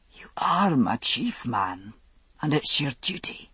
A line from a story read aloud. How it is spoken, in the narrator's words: he whispered